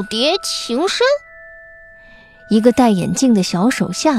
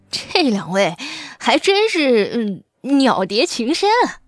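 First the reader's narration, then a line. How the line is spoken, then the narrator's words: Sneering. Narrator (Chinese): 瓜皮帽嗤笑一声，说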